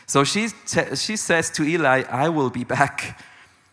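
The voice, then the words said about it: Arnold Schwarzenegger Austrian accent impression. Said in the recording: “this sentence from Arnold Schwarzenegger? I'll be back. The Austrian, it's almost like the Swiss accent.”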